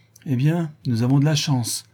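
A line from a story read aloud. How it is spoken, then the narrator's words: Exclaiming. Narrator (French): s'écria-t-il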